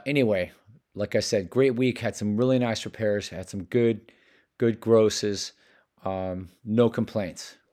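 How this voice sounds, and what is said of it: Hoarse voice. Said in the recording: “with my hoarse voice”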